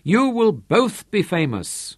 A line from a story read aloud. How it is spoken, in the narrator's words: hastily Santaine